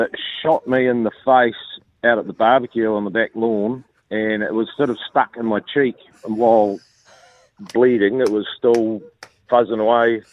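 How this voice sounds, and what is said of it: A noticeable regional accent. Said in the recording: “I thought I could tell your accent”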